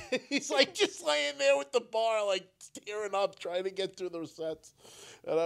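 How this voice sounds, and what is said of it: Usual voice. Nothing is said of it.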